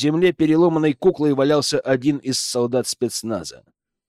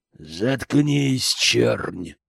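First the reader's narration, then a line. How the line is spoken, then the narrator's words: Young man's spiteful hiss. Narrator (Russian): злобно прошипел парень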